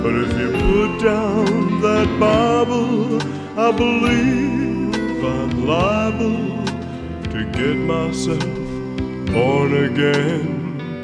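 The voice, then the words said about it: Sung imitation of another person's voice. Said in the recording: “doing his best Elvis impression.”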